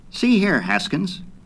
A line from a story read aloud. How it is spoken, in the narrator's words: snapped